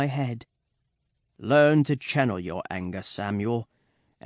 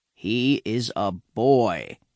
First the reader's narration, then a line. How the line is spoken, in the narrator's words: he says slowly and firmly to Master Archer